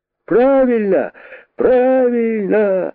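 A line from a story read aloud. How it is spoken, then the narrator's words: Rabbits shouting. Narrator (Russian): закричали кролики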